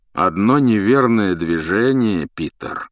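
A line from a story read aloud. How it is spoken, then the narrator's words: Menacing warning. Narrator (Russian): грозно предупредил Люпин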